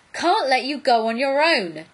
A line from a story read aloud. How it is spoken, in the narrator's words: Jack was yelling